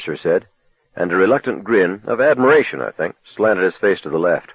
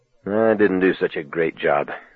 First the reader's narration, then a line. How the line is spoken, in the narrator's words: I muttered